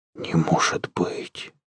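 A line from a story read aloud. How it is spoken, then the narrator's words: Whisper. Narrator (Russian): прошептал Захар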